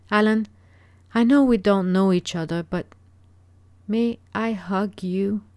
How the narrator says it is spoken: asked Jasmine timidly

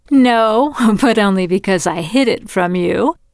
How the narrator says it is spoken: Christy said, laughing

